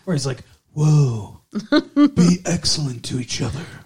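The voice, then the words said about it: Keanu Reeves impression. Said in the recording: “There's another impersonation.”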